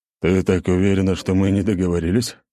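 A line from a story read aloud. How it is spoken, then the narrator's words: Big man's scoffing grunt. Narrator (Russian): хмыкнул здоровяк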